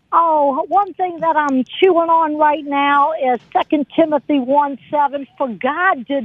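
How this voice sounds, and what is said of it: New Orleans accent. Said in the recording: “homegrown from her beautiful New Orleans accent”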